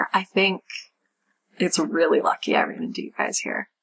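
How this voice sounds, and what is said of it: Character voice with heavy vocal fry. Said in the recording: “Moriah's voice is hurting my throat ... the vocal fry”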